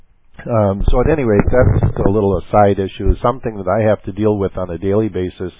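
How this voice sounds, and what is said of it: Hoarse, croaky voice. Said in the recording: “losing my voice, getting a frog in my throat here.”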